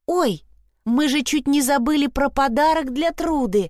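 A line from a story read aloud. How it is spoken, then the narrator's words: Exclaiming. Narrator (Russian): воскликнула Вильма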